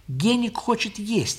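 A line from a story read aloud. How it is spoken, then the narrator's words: Plain. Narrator (Russian): ответила Лиля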